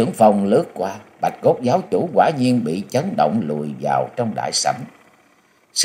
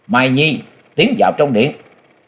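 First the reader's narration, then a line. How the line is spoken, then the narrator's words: Loud shout. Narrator (Vietnamese): miệng quát lớn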